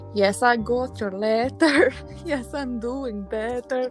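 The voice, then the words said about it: Put-on Scottish accent. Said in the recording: “Like, in that accent ... that's a Scottish accent”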